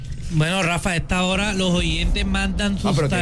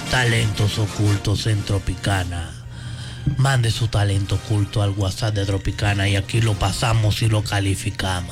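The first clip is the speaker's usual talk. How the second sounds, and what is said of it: Put-on mysterious, creepy voice. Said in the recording (Spanish): “tiene que poner voz misteriosa ... No, tampoco así. Ahí sí parece a Chucky.”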